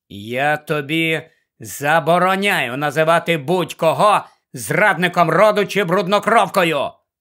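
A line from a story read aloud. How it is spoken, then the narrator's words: Growled. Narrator (Ukrainian): прогарчав Гаррі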